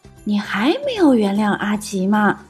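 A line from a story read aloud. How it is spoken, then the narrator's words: Quiet question. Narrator (Chinese): 小趣小声问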